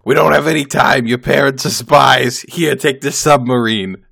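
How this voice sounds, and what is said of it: Raspy Brooklyn smoker accent. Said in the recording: “I don't know what voice I'm doing here... a totally different accent... So I went with like a smoker from Brooklyn, I guess.”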